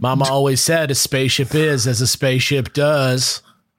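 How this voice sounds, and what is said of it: Forrest Gump character impression. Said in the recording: “do a Forrest Gump impression?”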